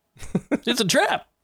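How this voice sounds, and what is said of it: Admiral Ackbar character voice impression. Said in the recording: “I can barely even do Admiral Ackbar.”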